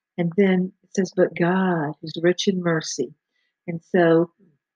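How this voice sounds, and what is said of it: Speaker's own accent. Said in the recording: “for those who can understand my accent.”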